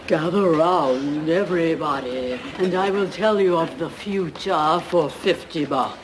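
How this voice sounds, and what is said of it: Spooky fortune-teller voice. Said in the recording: “do a spooky voice”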